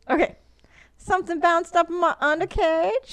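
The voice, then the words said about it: Attempted Australian accent sounding Southern. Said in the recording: “with your Australian accent ... See, that's not Australian. That's southern.”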